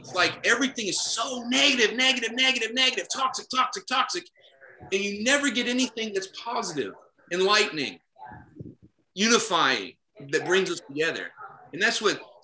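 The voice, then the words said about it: Heated, emotional voice. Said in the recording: “I'm getting all red in the face. Now I'm all emotional.”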